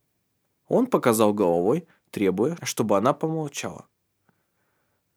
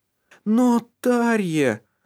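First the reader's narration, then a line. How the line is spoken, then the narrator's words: Moaning. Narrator (Russian): простонал Лив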